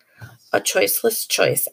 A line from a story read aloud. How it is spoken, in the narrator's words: I mumbled